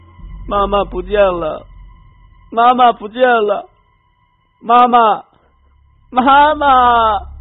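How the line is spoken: Wretched crying. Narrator (Chinese): 凄惨的哭声

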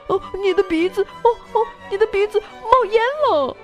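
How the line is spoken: Alarmed cry. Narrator (Chinese): 拉拉猪叫起来

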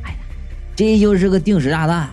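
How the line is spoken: Resigned. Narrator (Chinese): 我认命的说

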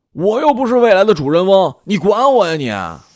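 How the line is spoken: Spirited shout. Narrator (Chinese): 无双突然来了劲儿，冲他背影喊

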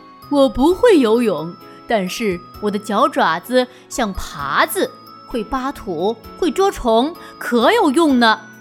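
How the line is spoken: Rooster, laughing. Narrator (Chinese): 大公鸡笑着说

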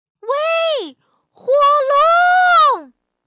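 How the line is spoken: Shouting as loud as possible. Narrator (Chinese): 尽可能的大声的喊

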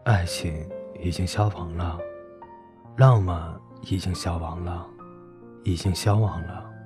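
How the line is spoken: Sad murmur. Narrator (Chinese): 转轮烟火摇摇头，喃喃地说

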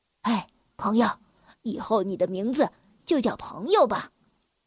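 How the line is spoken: Low voice. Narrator (Chinese): 我低声的说

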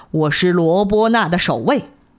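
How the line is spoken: Roaring sea monster. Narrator (Chinese): 海怪咆哮道

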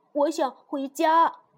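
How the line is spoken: Slightly louder, repeated. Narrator (Chinese): 他稍微大声了一点，又说了一遍

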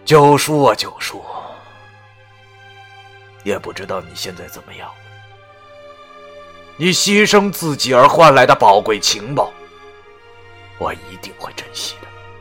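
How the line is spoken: Sighing. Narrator (Chinese): 我叹了口气

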